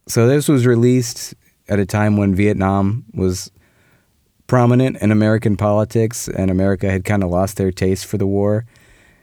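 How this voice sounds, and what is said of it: Sick-sounding, slightly off voice. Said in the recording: “I'm sick, so I apologize if my voice is a little wonky”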